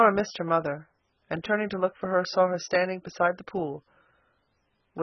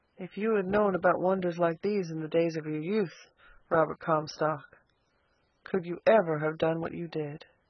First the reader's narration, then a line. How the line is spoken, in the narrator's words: said softly